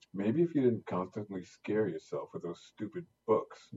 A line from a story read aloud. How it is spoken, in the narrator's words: Ngozi snapped